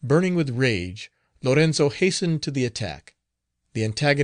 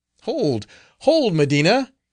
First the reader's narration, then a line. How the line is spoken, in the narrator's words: he exclaimed